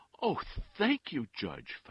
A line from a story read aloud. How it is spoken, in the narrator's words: Fausto cried